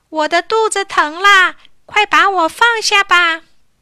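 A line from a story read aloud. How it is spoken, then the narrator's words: Shouting. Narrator (Chinese): 大叫起来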